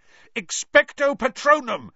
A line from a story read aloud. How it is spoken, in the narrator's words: Harry yelled